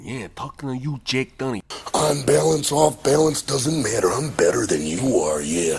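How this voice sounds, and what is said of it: Gruff New York-ish wrestler impression. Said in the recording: “Why does Macho Man kind of have like a New York almost accent? ... sort of leaning into like a Tony Soprano type thing there”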